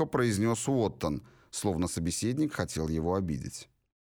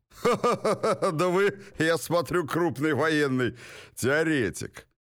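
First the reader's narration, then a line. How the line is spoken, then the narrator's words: Throaty laughter. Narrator (Russian): Уоттон гортанно расхохотался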